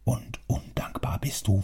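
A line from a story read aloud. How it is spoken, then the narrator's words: Softer voice. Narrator (German): fuhr mit weicherer Stimme fort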